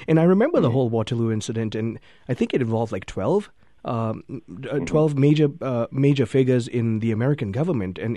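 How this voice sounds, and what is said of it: Non-American accent. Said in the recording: “you can probably tell from my accent, I didn't grow up in America”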